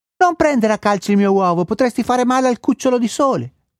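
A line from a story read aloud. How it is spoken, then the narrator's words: Little elf yelling. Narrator (Italian): urlò la piccola elfa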